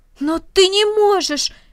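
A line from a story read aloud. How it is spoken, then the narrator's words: Exclaiming. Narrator (Russian): воскликнул Рома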